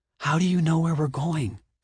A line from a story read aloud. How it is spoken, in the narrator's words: She whispered, bringing her mouth close to his ear